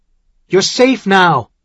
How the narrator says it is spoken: he shouted again

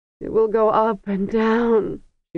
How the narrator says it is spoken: she moaned in Kargish

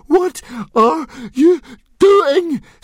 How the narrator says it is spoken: screamed Fishlegs, frantically

